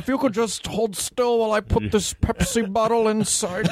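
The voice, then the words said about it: Imitates another person's voice. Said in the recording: “it's a good imitation ... a little Cosby-ish”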